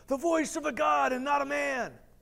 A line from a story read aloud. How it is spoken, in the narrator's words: the people were shouting